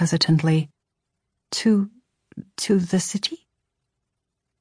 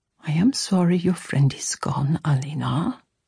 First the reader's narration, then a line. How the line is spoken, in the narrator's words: Mama murmured